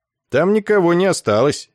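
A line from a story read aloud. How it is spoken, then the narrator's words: Cheerful explanation. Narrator (Russian): весело объяснил Ессариану капитан Гнус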